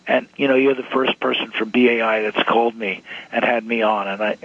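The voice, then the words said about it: Hoarse, strained, fading voice. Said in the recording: “I know I've been raving, and I know that I'm losing my voice.”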